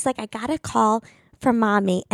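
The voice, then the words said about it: Sweeter voice imitating another person. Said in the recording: “when I do my sister, it's always a sweeter voice than mine ... doing her funny voice”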